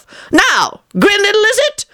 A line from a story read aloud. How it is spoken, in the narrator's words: he called out threateningly